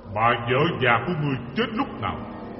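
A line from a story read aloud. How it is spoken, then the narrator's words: Stern voice. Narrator (Vietnamese): Diêm Vương nghiêm giọng quá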